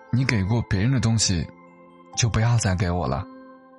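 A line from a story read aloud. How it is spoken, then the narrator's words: Flat, indifferent. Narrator (Chinese): 淡淡的说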